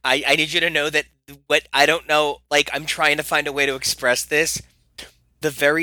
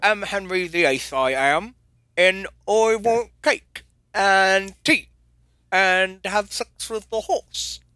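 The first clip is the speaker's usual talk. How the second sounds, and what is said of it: Deliberately bad put-on British accent. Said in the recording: “I maybe don't do a British impression for a good reason”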